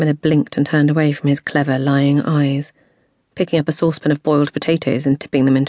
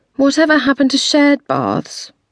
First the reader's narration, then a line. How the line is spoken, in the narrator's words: she said wistfully